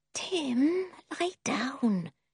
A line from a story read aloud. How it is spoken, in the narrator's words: whispered